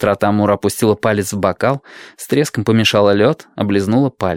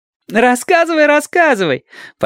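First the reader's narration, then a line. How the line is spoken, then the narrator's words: Laughing demand. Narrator (Russian): потребовала Адати, смеясь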